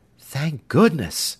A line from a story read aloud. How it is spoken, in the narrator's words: Sandy exclaimed